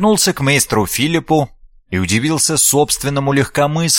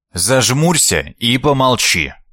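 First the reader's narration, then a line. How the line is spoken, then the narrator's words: Stern command. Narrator (Russian): Строго велел монах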